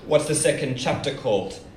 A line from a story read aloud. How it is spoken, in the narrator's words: I asked